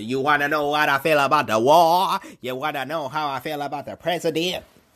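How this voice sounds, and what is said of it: Imitates another person's voice. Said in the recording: “my Dave Chappelle impersonation.”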